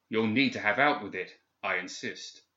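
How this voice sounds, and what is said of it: Formal, severe, commanding English accent. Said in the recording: “the formal English accent more severe and commanding”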